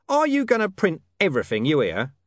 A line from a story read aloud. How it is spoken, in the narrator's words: he said